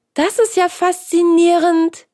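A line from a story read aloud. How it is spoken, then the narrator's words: Exclamation. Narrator (German): rief Hans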